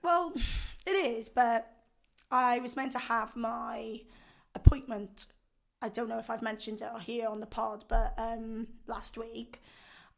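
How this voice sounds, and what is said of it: Hoarse, strained voice. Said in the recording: “my voice isn't fantastic, as you can hear. ... I might have damaged vocal cords.”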